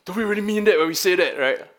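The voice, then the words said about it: Bad impression of a pastor. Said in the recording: “Pastor Audrey come and he's like ... That's a bad impression. ... It doesn't sound like that.”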